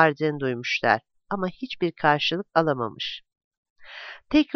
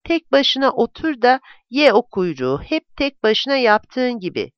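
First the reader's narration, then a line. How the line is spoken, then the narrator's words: Shouting. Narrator (Turkish): diye bağırmış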